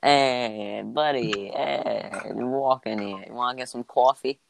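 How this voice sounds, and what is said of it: Put-on New York accent. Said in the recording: “I had to do a New York accent”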